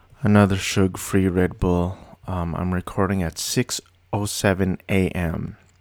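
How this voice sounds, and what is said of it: Flat monotone voice. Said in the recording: “this is my regular voice. It's very monotone and boring.”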